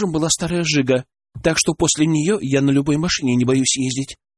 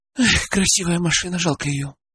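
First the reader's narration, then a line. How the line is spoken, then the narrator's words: Sighing. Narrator (Russian): вздохнула Алена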